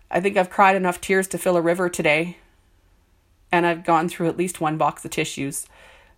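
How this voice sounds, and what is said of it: Stuffed-up, congested voice. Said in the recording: “I sound a little stuffed up”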